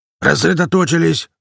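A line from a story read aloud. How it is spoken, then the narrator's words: Growl, bear. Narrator (Russian): рыкнул медведь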